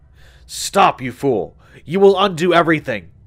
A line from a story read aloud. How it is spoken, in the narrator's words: Lombard roared